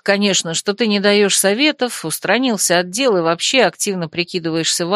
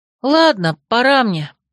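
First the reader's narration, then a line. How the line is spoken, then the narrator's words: Sighing. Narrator (Russian): вздохнула я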